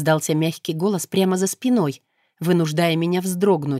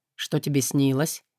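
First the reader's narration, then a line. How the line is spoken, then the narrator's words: Demon asking calmly. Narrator (Russian): спокойно спросил демон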